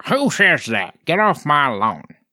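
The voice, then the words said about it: Imitated grumpy old man voice. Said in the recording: “That was a very good impression of an old man.”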